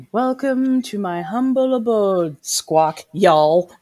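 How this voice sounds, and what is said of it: Stilted, high, courtly Cajun accent. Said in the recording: “a Southern or a Louisiana accent ... she squawks with an accent ... a very stilted, high, courtly version of like Cajun”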